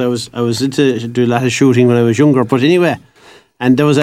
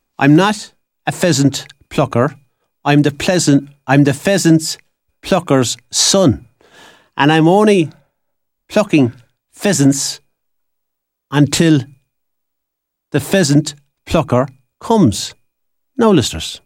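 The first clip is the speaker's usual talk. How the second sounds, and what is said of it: Put-on accent. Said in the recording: “In my best accent.”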